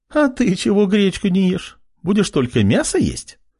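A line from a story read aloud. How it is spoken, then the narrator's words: Chuckling. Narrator (Russian): хохотнула Вероника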